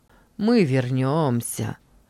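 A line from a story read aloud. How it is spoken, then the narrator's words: Hoarse voice. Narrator (Russian): хрипло сказал один из них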